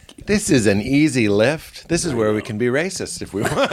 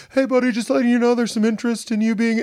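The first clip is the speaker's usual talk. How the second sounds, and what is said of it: Imitates another person's voice. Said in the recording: “My loving impression of my wonderful manager”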